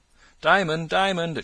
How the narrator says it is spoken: it cried

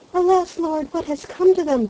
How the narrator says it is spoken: cried peering anxiously

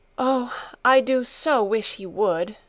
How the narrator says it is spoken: giving a long sigh, she added

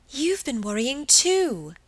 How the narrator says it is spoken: exclaimed Margaret, getting more and more excited

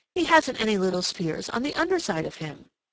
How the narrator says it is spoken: he exclaimed

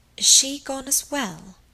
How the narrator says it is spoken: murmured the other

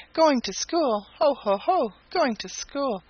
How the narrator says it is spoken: exclaimed Happy Jack

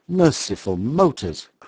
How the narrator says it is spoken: cried the horrified man

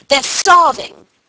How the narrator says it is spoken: she shouted

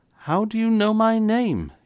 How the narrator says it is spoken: he gasped

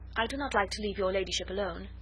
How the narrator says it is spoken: said

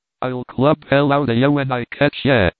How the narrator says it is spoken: shouted

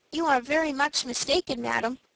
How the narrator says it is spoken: said Frank quietly

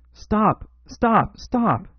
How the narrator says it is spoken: he cried

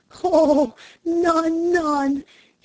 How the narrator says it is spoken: he exclaimed

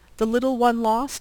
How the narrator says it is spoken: he exclaimed

